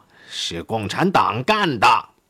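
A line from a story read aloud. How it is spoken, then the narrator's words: Shout. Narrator (Chinese): 喊完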